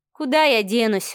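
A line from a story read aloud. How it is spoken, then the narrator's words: Sighing. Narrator (Russian): вздохнула Маша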